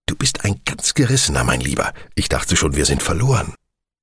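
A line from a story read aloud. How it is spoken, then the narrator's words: Whisper. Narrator (German): flüsterte Speed schließlich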